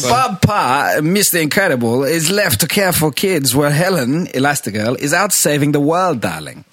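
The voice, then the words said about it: Nasal cartoon character voice, odd accent. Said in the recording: “Edna Mode, kind of nasally, bit ... nasally, ... of a weird accent, kind of.”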